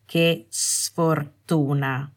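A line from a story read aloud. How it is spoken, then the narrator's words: Cold. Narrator (Italian): disse freddamente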